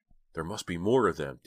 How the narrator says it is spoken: Dina said, her voice trembling

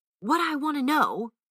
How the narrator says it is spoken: cried Cologne, with an oath

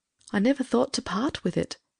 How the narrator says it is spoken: said wistfully

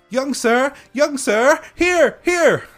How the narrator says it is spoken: they cried from all sides

